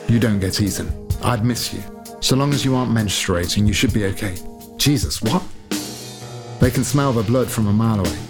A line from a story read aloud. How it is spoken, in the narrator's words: said Ingrid, laughing wrathfully